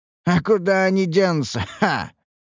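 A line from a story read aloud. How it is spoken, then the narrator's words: Laughing. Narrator (Russian): рассмеялся охранник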